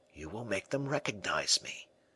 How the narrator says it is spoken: replied the man softly

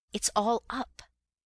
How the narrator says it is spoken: I gasped

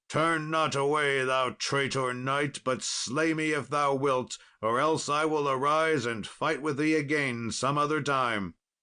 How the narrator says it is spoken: Then Sir Gawain cried out

